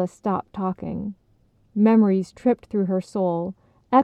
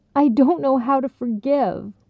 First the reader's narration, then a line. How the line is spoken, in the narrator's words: Carla wailed, nearly choking on the words